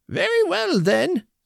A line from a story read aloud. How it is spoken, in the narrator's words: cried the woman